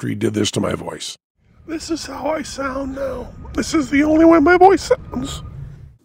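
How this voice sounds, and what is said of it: Squeaky, ghostly Mickey Mouse-like voice. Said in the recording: “Mickey Mouse ... Mickey Mouse? No, like dead ghost of Mickey Mouse's grandfather ... Horrible. And that's all I can do. I can make no other sound.”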